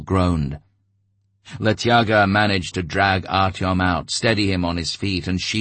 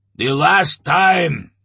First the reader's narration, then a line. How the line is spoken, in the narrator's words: Svinolup barked, but the back rows couldn't hear him